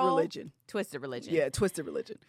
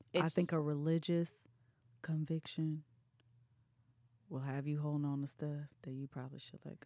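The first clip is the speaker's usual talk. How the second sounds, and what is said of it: Whispering. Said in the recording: “I'm whispering”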